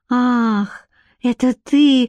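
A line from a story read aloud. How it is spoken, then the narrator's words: Dismissive exhale. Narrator (Russian): выдохнула она тоном, ясно дававшим понять, что он не стоит ее волнений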